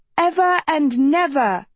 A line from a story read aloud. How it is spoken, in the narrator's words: shouted one